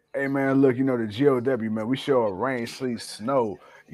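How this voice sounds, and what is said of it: Voice cutting in and out. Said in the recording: “sorry about my voice ... I keep going in and out”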